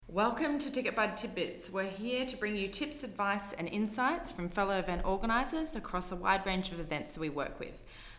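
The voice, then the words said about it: Australian accent. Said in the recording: “You may have noticed I have an accent. I am an Aussie”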